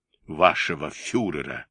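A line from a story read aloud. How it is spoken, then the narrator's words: Grumbled mutter. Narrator (Russian): буркнул под нос барон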